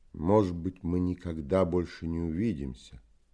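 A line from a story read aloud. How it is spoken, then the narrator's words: Plain. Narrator (Russian): сказал он мне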